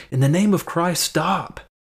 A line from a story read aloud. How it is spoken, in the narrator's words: the cries of this young monk